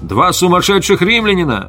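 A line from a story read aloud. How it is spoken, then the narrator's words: Rider's warning shout. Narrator (Russian): Кто-то из всадников предупреждающе крикнул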